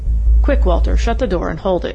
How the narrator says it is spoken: exclaimed Craig

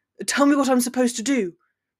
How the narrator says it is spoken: Draco snapped harshly

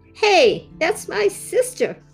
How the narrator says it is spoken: Gwendolyn exclaimed

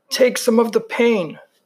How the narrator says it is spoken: he gasped

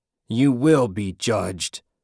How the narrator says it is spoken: Jack growled

